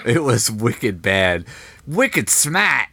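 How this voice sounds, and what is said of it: Attempted Boston accent. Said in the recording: “a very thick Bostonian accent ... how bad your Bostonian accent was ... it went full New York. It was not even remotely Bostonian ... I can hit an accent for about two words”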